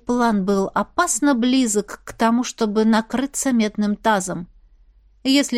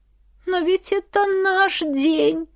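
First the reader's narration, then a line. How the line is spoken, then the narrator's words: Sorrowful sob. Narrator (Russian): горестно всхлипнула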